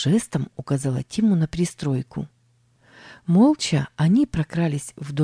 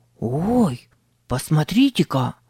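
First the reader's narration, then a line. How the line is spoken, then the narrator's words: Hoarse whispered exclamation. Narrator (Russian): воскликнул Тим хриплым шепотом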